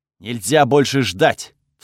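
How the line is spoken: Barked while running. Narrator (Russian): вслух рявкнул я на бегу

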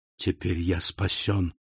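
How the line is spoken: Whisper. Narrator (Russian): прошептал он

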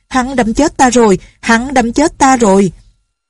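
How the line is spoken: Terrified trembling cry. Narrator (Vietnamese): Thiên Ất đạo nhân run cầm cập la lên

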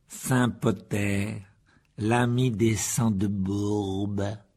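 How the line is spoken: Slow speech. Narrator (French): dit lentement Malfoy

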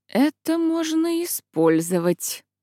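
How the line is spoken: Muttering. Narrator (Russian): бормотнула она

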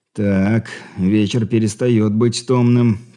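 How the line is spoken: Through gritted teeth. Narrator (Russian): процедил сквозь зубы Григорий

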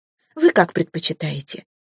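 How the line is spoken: Gentle, affectionate tone. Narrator (Russian): ласково продолжила я

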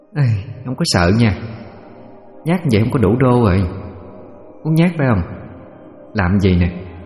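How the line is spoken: Sighing. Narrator (Vietnamese): thở dài

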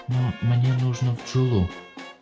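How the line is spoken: Quiet. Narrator (Russian): тихо сказала Дел

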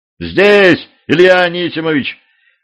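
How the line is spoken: Shouted. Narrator (Russian): крикнул один из мужиков

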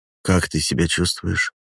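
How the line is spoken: Tender question. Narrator (Russian): спрашивает Райан, нежно прикасаясь к моей щеке

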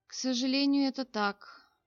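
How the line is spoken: Prince sighing heavily. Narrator (Russian): тяжело вздохнул принц

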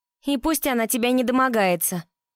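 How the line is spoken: Shouting through cupped hands. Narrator (Russian): поднеся ладошки ко рту, прокричала Дилан

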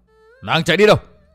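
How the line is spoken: Group shouting. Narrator (Vietnamese): Bọn người áo đen quát

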